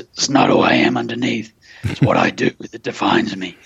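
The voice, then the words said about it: Imitated Batman character voice. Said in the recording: “in my Batman voice.”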